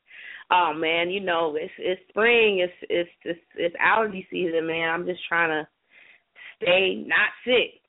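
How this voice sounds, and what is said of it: Slightly hoarse voice. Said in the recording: “I might sound a little hoarse”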